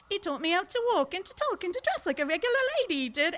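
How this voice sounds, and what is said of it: Put-on Cockney British accent. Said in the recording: “So I started out Cockney ... And then smashed that down into this like Hayley Mills upper class accent.”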